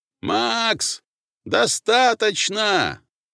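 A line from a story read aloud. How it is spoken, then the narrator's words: Yelled from below. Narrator (Russian): заорал снизу Герц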